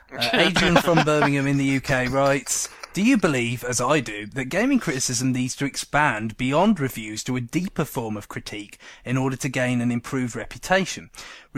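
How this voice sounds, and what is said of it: Put-on English accent. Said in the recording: “Do it in an English accent. ... I'll try not to sound like Don Cheadle.”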